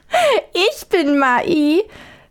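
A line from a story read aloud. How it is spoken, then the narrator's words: Old woman's laughing reply. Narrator (German): erwiderte die Alte lachend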